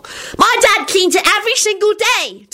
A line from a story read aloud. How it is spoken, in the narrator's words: Teddy yelled loudly